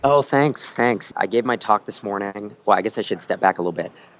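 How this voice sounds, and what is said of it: Voice worn out and rough. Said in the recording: “you sound terrible ... the voice goes, you know, I just got some kind of cold or something ... you're kind of yelling over people”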